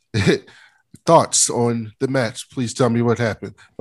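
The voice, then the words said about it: Flat robotic monotone. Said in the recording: “You know how they just talk like robots now sometimes? ... talking like a robot.”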